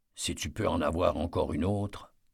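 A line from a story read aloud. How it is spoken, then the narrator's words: Murmured. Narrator (French): murmura Eddie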